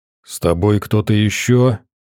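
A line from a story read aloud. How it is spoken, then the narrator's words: Deep bass male voice. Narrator (Russian): низко пробасил мужчина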